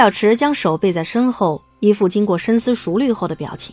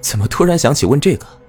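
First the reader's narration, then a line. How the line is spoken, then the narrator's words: Forced smile. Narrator (Chinese): 嘴角一挑，强行扭了个笑模样出来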